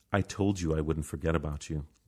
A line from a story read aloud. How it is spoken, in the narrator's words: Lorraine says